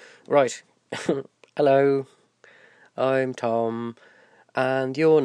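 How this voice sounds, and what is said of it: Usual voice. Nothing is said of it.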